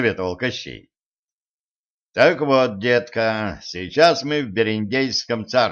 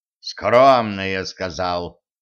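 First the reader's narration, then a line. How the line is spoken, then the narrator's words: Through gritted teeth. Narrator (Russian): процедил Кощей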